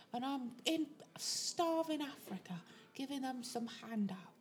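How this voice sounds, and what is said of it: David Beckham impression. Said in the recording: “doing a David Beckham impression.”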